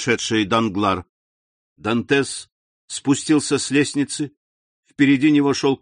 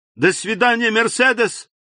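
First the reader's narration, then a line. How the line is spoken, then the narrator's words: Shouted. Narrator (Russian): Узник крикнул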